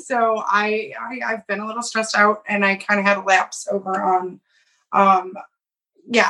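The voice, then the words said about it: Husky, hoarse voice. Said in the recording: “I have a little bit of a sexy voice going on ... I yelled a lot”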